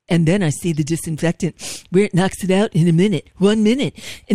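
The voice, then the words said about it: Imitates another person's voice. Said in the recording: “my Trump impression... you do it very well. I'm impressed.”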